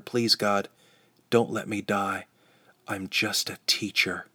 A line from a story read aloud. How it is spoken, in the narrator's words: I again whispered